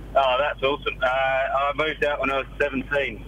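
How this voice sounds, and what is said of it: Deep voice, English with slight Australian twang. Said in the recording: “I'm hardly picking up any Australian accent ... You sound like a 40-year-old man. You've got a very masculine voice. I'm getting a little hint of Australian coming through ... There's a slight twang ... There's an Australian twang, but it's primarily English.”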